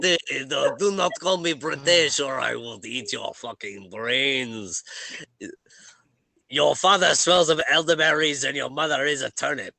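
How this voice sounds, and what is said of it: Put-on French accent. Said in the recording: “I will do the French accent.”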